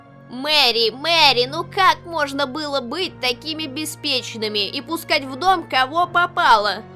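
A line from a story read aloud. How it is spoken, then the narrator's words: Moan. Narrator (Russian): простонала Этна Тернер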